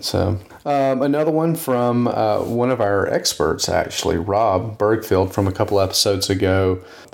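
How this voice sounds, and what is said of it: Southern US Texas accent. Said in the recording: “your Texas accent. It sounds charming. ... I think it may just be a Southern accent ... we can call it a Texas accent.”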